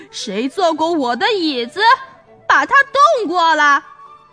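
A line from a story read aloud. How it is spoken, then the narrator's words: Frightening bellow. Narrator (Chinese): 熊爸爸用可怕的声音哇哇叫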